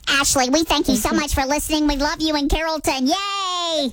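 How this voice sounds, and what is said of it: High-pitched helium voice. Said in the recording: “helium voice ... Dallas Helium shout out”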